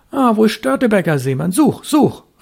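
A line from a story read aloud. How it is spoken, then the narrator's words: Hasty call. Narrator (German): rief er hastig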